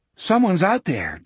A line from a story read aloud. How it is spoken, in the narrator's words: George said nervously